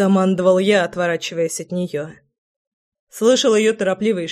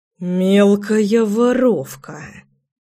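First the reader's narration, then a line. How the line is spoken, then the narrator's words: Hissed. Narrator (Russian): прошипел я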